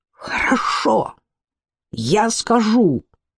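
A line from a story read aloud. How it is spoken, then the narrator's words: Flushed, proud exclamation. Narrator (Russian): он вспыхнул и, гордо подняв голову, воскликнул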